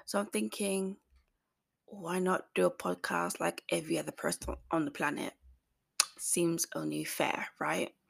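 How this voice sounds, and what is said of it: Hoarse voice. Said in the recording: “my voice is sounding really, really hoarse.”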